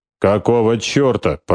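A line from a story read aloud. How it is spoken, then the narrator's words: Growl. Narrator (Russian): прорычал Штубер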